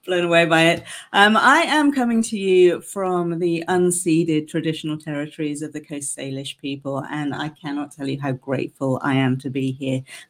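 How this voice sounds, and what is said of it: British English accent. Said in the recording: “As you can tell from my accent, I'm originally from the UK”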